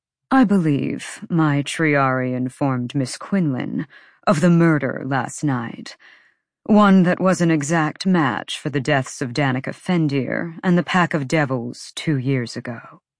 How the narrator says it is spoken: Micah said smoothly

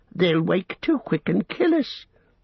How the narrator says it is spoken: whined Smeagol in the last effort

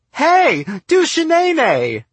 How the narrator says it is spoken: she screamed

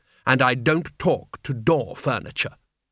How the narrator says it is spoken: she said haughtily, holding down the lid on her terror

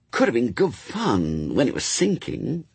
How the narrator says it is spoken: said Brian wistfully, recalling the one occasion when Lower Tadfield had been flooded

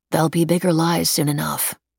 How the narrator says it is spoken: she said grimly

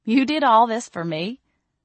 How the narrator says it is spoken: I laughed

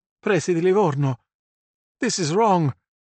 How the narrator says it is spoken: Sandro called out, angering

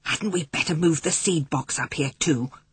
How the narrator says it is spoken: whispered Patrick

